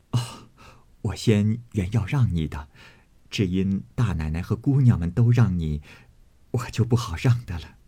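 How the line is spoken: Quick, laughing. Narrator (Chinese): 袭人忙接着笑道

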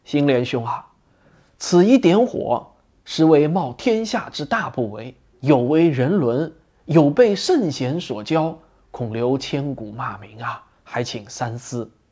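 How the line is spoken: Soft, after a cough. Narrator (Chinese): 儒雅中年人，轻咳了一声，在他的耳边轻声的言道

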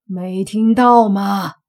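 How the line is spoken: Through gritted teeth. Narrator (Chinese): 江少杰咬着牙，咬牙切齿的说

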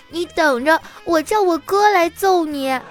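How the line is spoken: Crying child. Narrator (Chinese): 那个小朋友哭着跟我说

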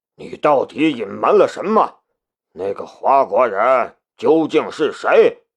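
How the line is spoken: Angry shout. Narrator (Chinese): 他对大月提雅吼道

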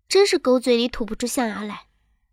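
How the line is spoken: Soft laughing scold. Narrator (Chinese): 徐有人才轻声的笑着骂道

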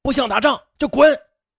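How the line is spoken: Loud scolding. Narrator (Chinese): 大声地呵斥外军

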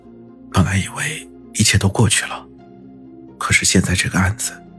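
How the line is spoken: Murmuring to himself. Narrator (Chinese): 云峰喃喃自语道

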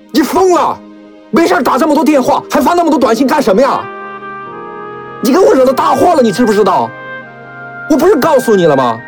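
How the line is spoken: Angry yelling. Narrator (Chinese): 吉布恼怒的吼了起来

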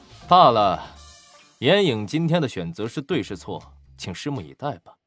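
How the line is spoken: Cold sneer. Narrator (Chinese): 曹长波冷笑

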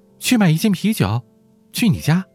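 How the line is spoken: Shouting over shoulder. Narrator (Chinese): 他头也不回的喊着

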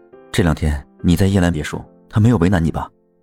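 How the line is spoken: Low question. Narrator (Chinese): 白一之低声问我

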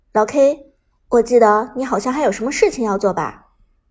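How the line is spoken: Low, grave question. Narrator (Chinese): 杜鹃沉声问道

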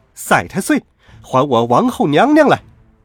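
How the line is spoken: Repeated shouting. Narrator (Chinese): 孙悟空连叫了三声

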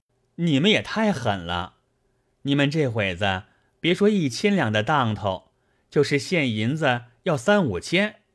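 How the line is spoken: Laughing. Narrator (Chinese): 贾琏笑道

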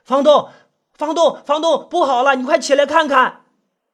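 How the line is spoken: Hesitant, urgent call. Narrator (Chinese): 周荣迟疑了一下，他还是用略带急促的声音叫道

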